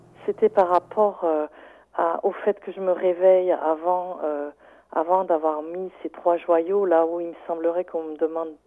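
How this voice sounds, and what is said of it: Light drawling Saint-Étienne French accent. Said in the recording (French): “léger accent ... c'est un accent qui s'est mélangé avec l'accent du sud vers Toulouse ... l'accent stéphanois qui est très traînant et que j'ai gardé”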